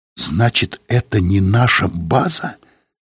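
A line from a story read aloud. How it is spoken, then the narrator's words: Whispered. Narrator (Russian): сказала она шепотом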